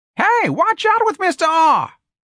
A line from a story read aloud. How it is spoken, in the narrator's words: someone screamed